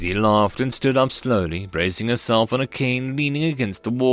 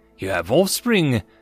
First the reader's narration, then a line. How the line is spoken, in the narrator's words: Garral exclaimed